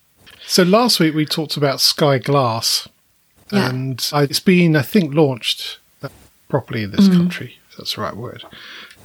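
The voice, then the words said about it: Strained, fading voice. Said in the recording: “I'm losing my voice a bit”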